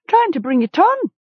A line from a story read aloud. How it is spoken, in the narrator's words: a woman called out